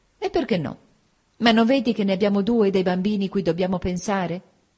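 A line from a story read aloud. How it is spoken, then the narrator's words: Earnest exclamation. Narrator (Italian): nel mio nuovo altruismo esclamai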